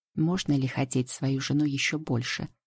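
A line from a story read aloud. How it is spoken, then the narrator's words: Low velvety voice. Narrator (Russian): спрашивает он низким бархатным голосом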